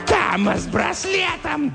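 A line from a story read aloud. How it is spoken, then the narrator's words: Shrill distant voice. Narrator (Russian): донесся визгливый голос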